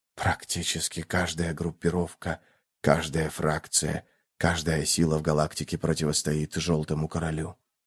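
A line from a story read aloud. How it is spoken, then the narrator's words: Whisper. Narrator (Russian): произнес шепот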